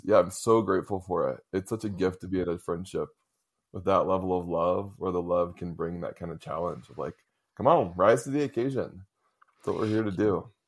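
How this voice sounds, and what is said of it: Teary, emotional voice. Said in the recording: “I'm getting teary.”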